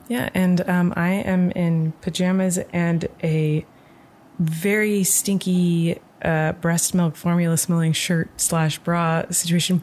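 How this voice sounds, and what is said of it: Speaking very softly. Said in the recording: “we're talking really soft.”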